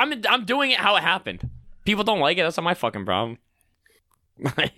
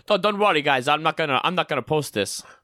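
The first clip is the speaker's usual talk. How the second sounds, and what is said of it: Put-on accent impersonation. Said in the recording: “stop with the accent. ... It could be the best accent ever, or it could be very off. ... I think I'm pretty good at my impersonations.”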